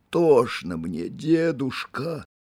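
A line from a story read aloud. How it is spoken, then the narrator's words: Breathless whisper. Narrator (Russian): шептал он задыхавшимся голосом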